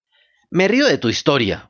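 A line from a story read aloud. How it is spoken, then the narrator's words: Furious buyer bellowing. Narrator (Spanish): vociferó el comprador enfurecido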